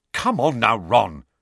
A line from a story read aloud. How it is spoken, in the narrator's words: said Angelina crossly